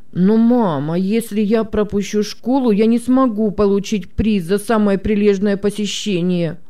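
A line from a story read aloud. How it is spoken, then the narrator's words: Sudden moan, boy. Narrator (Russian): застонал вдруг мальчик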